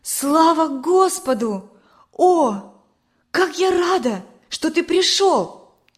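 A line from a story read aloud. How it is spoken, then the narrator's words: Joyful exclamation. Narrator (Russian): воскликнула она, увидев его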